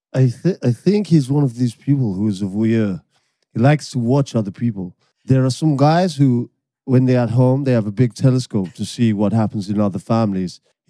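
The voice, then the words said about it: Attempted José Mourinho impression. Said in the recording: “So you can deliver them as Mourinho... Oh, you know I'm not very good at accents, am I?... Mourinho on Wenger.”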